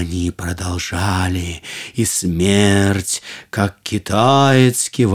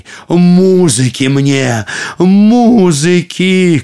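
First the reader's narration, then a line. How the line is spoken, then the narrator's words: Shouting. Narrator (Russian): кричал император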